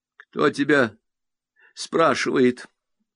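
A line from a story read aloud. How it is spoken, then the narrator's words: Glum reply. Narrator (Russian): уныло отвечает Ленка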